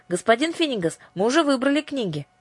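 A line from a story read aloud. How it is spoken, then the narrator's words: Shout. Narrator (Russian): крикнула Аннушка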